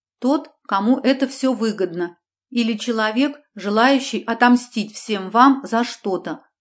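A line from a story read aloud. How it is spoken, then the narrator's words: Plain. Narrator (Russian): ответила я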